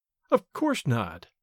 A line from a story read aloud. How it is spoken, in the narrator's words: I replied quietly